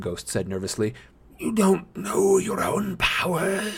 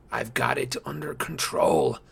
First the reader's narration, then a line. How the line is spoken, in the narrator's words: Nico said, even though his voice sounded fragile